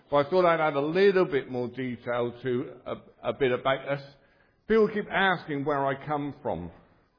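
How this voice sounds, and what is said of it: Strong Devon English accent. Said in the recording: “I have a really strange accent. It's quite a strong accent. ... I come from the UK ... a special part of the UK called Devon.”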